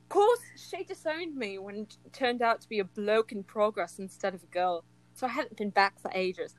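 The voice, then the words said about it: Put-on British accent. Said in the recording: “I'll do a little British accent for you.”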